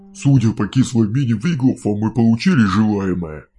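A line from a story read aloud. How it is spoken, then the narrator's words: Dwarf chuckling into beard. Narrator (Russian): хмыкнул в бороду гном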